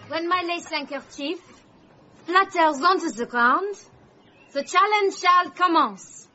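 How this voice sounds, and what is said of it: Speaks in a put-on accent. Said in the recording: “I just love that accent.”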